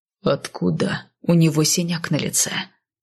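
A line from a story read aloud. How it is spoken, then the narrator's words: Quiet growl. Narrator (Russian): тихо прорычал Кайл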